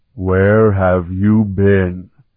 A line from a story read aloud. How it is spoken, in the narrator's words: He bellowed in a thunderous voice